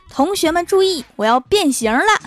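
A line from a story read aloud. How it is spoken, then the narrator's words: Loud shout. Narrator (Chinese): 大声喝道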